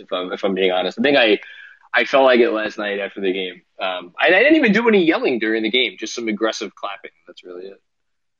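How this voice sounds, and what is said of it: Slightly hoarse, strained voice. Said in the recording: “I actually feel like I'm losing my voice”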